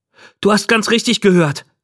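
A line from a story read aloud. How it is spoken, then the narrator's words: Calling out. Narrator (German): rief ich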